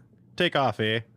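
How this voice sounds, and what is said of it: Bad put-on Canadian accent. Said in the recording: “Horrible Canadian accent.”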